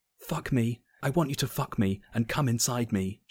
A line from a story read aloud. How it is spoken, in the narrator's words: she whispered